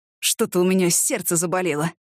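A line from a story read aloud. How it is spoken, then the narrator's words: Groaning. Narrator (Russian): простонал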